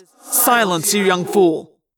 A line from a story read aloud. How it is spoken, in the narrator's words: Alloran snapped angrily